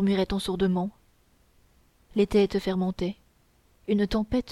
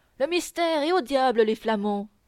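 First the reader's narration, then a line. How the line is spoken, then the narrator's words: Full-lunged shout. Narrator (French): s'écria-t-il de toute la force de ses poumons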